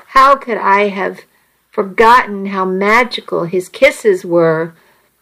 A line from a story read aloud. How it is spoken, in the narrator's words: I moaned softly